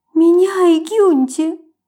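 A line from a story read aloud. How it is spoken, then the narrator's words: Sobbing again. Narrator (Russian): Опять всхлипнула Матильда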